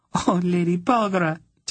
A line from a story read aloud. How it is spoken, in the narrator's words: Tenedra said, laughing and crying at the same time